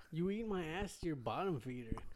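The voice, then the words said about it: Imitates another person's voice. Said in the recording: “Who's that supposed to be? ... It's Raul Julia.”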